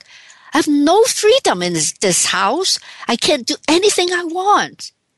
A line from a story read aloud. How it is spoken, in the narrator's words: He yelled back